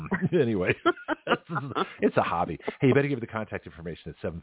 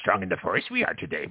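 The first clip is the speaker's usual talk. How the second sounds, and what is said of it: Yoda character voice. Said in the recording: “I'll do a Yoda impression.”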